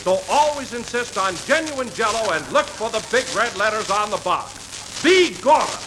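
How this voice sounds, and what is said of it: Put-on Irish brogue. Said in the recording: “you did that beautifully... that's a marvelous brogue.”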